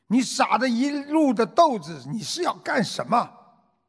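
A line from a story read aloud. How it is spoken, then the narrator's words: Angry roar. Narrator (Chinese): 他很生气，他咆哮着对他的妈妈说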